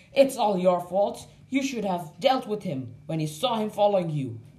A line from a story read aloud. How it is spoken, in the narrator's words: shouted Sam's friend